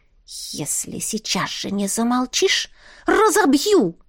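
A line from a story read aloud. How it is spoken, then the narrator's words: Menacing hiss. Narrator (Russian): прошипела Настя угрожающе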